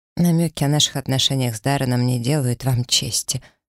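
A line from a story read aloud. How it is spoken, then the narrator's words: Dry reply. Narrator (Russian): сухо ответила ему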